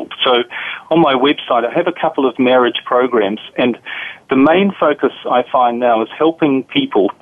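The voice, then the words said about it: New Zealand accent. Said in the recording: “As you can probably tell from my accent, I'm from a different part of the world. I'm from New Zealand originally.”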